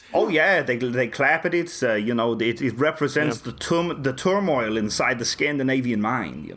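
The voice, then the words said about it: Put-on German accent. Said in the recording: “This is my German accent.”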